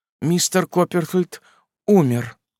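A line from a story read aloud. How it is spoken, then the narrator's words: Trembling mother's voice. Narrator (Russian): дрожащим голосом сказала матушка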